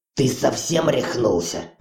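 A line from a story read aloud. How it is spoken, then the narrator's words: Hoarse rasp. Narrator (Russian): прохрипел Ури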